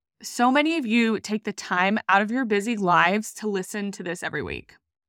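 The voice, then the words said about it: Emotional voice. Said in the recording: “I'm like kind of getting emotional.”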